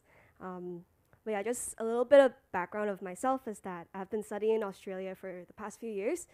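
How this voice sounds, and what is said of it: Sick-sounding voice. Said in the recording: “I'm a bit sick, so my voice sounds like this”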